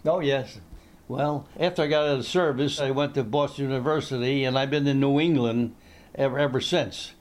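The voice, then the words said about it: New Jersey accent. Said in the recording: “you do not have a Maine accent. You've got a New Jersey accent.”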